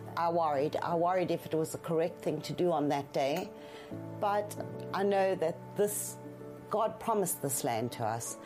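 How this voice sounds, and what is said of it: Speaks with a noticeable accent. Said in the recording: “As you can hear by my accent,”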